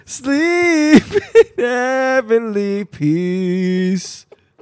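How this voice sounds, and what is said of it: Loud yelled singing. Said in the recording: “I don't know why I'm yelling.”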